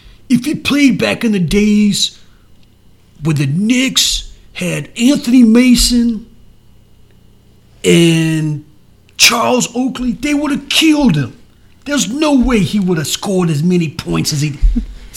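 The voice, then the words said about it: Put-on New York accent. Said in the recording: “It's the only New York accent I have.”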